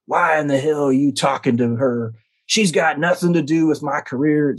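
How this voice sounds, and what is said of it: Imitating another man's angry voice. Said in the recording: “now I'm impersonating Rudy's voice”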